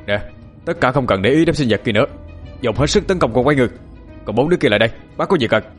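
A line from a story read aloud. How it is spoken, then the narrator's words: Almost shouting. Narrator (Vietnamese): Bác nói mà như quát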